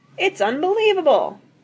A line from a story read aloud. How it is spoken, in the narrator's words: yelled one